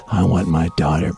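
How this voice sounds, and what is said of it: Harrison Ford impression. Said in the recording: “I could do Harrison Ford. ... I mean, it's not good either. ... Yeah, that's so good.”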